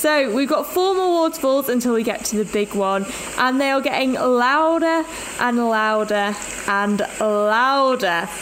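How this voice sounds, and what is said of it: Slightly out of breath. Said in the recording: “You can tell that I'm a bit out of breath.”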